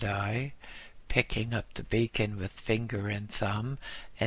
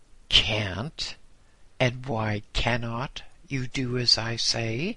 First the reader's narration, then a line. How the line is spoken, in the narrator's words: the Lama asked